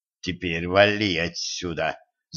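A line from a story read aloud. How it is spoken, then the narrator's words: Hissed in Russian. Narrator (Russian): зашипел он по-русски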